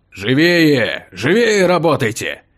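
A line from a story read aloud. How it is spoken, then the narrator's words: Angry bark. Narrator (Russian): Сердито рявкнул стражник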